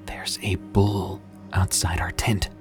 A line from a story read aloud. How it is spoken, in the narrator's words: whispered